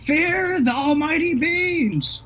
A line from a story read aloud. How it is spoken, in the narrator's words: I'm screaming